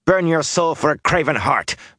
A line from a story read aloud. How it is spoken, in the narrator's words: Matt growled